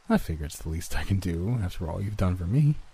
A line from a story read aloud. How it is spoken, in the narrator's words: he replied with a chuckle that sounded like a bizarre combination of his previously high-pitched laugh and my own